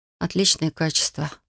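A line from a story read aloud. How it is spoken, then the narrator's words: Muttered. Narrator (Russian): пробормотала я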